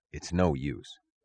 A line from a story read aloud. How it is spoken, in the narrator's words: said the conductor softly